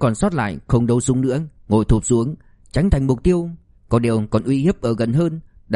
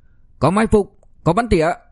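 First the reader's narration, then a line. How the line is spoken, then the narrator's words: Very loud shout. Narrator (Vietnamese): hắn hét thật lớn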